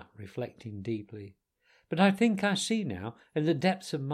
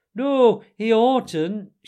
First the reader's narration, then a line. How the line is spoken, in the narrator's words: shouted the mole with his mouth full